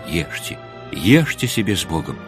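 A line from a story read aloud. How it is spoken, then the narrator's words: Whispered. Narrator (Russian): отец Арсений шепотом сказал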